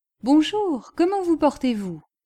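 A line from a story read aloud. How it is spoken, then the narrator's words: Exclaimed. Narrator (French): s'écria M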